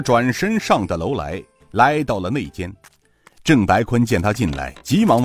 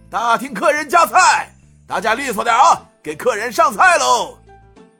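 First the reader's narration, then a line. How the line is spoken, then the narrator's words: Shouting. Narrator (Chinese): 涂掌柜……喊道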